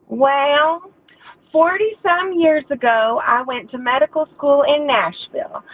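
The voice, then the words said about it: Imitated distinctive Southern accent. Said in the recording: “imitating your father ... he has this funny, very distinctive Southern accent”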